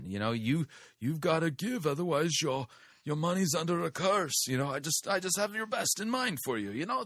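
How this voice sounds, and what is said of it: Poor mafia don accent. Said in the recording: “turns God into the cosmic mafia don ... I know my accent stinks”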